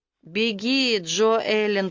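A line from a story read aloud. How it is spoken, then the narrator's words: Hoarse rasp. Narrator (Russian): прохрипел он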